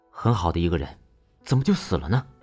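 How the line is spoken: Regretful sigh. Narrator (Chinese): 石威屡见惋惜地叹了一口气说

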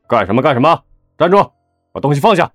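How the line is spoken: Shout. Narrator (Chinese): 李一红大喊

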